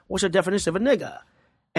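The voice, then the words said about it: Imitated Australian accent. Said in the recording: “He had that Australian accent.”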